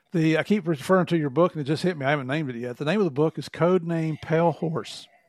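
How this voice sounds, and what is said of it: Southern US country accent. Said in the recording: “with my country accent”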